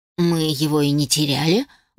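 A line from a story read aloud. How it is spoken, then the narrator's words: Grumbled. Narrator (Russian): буркнула я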